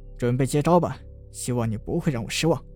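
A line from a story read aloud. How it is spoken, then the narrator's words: Cold. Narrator (Chinese): 冷声道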